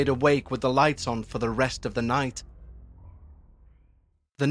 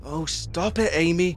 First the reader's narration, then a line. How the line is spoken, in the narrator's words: he growled